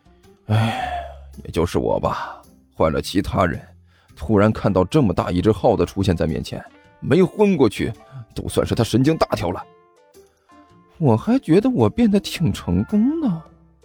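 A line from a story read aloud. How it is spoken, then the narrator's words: Sighing. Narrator (Chinese): 干球叹了口气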